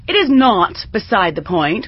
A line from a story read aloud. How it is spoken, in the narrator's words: Rodney snapped, incensed